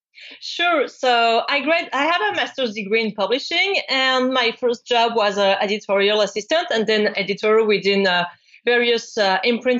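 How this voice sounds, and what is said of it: French-accented English. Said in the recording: “based in Paris, France. And that's why you're going to hear this gorgeous accent”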